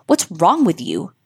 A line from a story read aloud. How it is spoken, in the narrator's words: Ashley snapped in irritation